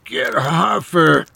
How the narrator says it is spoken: Charlie groaned

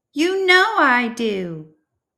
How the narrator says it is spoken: exclaimed Cooper

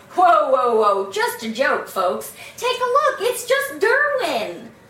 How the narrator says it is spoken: Buddy, alarmed but still laughing, shouting

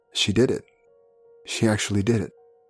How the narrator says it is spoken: Marian's ex-boyfriend, Anna's father, Christian Berthold, witnessed the incident and muttered

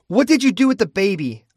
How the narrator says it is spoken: I snapped

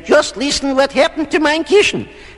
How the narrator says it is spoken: Mama Bear snapped

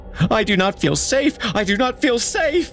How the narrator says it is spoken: screamed as she passed them, continuing down, never slowing

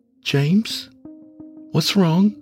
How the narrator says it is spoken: asked, her voice full of concern

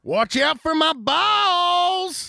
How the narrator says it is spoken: Hill screamed

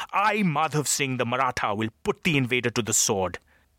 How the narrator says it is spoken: was shouting now

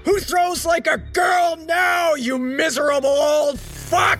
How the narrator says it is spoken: I roared

